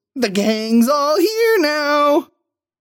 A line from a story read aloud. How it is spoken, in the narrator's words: squeals